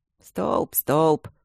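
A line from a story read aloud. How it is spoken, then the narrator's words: Grumbling mocking mimicry. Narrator (Russian): ворчаливо и насмешливо передразнил его Алмаз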